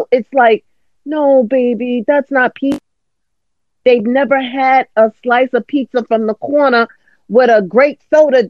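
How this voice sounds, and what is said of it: Strong East Coast accent. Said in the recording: “How your East Coast accent just came all the way out.”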